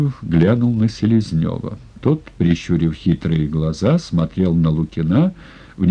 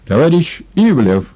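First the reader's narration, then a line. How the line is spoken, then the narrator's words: Sharp. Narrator (Russian): резко сказал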